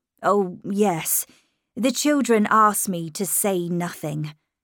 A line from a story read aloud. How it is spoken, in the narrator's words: said